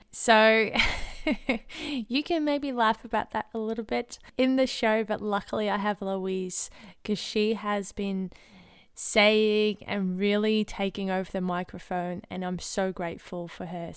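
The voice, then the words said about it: Crackly, sore-throated voice. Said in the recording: “my voice is a bit crackly ... your throat”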